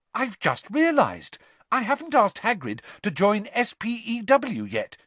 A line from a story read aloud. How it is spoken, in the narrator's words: she said brightly